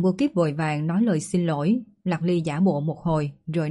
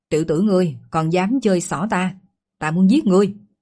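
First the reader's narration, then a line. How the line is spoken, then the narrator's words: Feigned anger. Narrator (Vietnamese): Lạc Ly làm ra vẻ giận dữ mà nói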